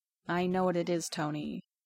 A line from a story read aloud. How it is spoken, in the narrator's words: Bruce says quietly